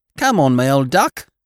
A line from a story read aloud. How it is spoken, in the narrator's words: cried Polly Birkin